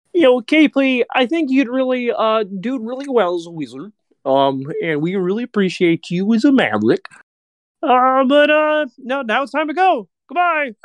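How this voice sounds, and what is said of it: Kermit the Frog impression. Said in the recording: “your impression of Kermit the Frog ... Ah! That was so good.”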